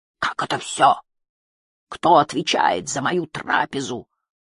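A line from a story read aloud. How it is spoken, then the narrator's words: Thundering voice. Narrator (Russian): прогремел Геллик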